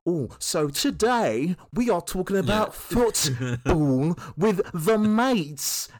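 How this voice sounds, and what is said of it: Bad exaggerated fake English accent. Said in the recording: “hasn't got an English accent, and they put on the worst English accent... proper going into every enunciation”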